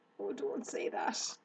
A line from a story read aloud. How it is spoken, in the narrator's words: groaned Wilbur